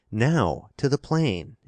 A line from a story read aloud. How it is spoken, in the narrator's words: exclaimed Dirk